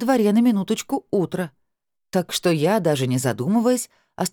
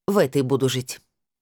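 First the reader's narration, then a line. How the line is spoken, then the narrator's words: Categorical, firm tone. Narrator (Russian): сказала я категорическим тоном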